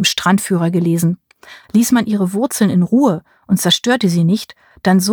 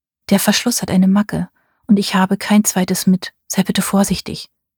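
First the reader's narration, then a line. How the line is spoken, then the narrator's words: Soft pleading. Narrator (German): bat sie mich leise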